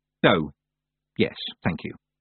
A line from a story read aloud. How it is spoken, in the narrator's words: said Tiffany quietly